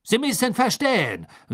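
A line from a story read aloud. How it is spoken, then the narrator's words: Hasty. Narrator (German): sagte Karkaroff hastig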